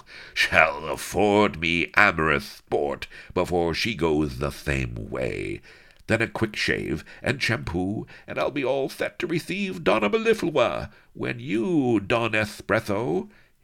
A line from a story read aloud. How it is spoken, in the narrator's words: he went on with a mad cackle